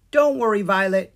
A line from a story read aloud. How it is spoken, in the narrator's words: Sprite yelled